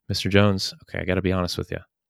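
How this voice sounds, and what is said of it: Smooth late-night DJ voice. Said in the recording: “go into your late night DJ voice.”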